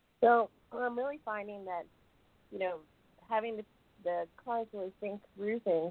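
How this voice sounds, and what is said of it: Voice slightly off, unwell. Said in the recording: “My voice is, I have a little bit of yucky going on here”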